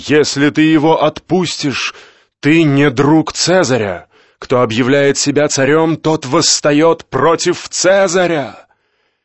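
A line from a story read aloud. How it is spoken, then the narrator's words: Crowd shouting. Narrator (Russian): они закричали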